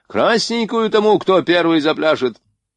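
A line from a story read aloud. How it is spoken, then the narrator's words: Furious shout. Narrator (Russian): Шульц покраснел от бешенства и выкрикнул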